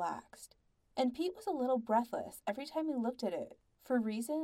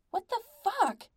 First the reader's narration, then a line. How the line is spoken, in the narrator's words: Pete's brain shouted